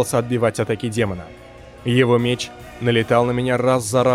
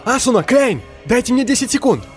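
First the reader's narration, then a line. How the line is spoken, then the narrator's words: Shouted. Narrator (Russian): Выкрикнул я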